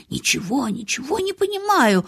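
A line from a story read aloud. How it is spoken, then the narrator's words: Muttering. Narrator (Russian): бормотал он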